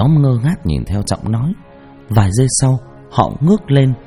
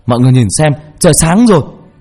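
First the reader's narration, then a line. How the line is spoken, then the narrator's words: Loud shout. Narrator (Vietnamese): Trọng hét to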